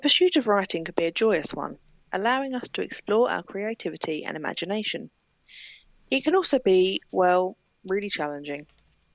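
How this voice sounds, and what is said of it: Pleasant non-Southern accent. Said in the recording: “she's got a very nice accent to listen to”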